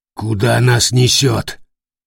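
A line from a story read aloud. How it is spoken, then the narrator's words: Hoarse croak. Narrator (Russian): хрипит Дердагентур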